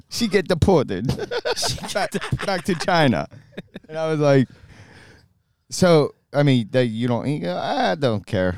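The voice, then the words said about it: Impression of a friend. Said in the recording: “that is a pretty good Santi impression”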